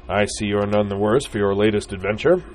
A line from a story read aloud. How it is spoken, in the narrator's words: boomed the man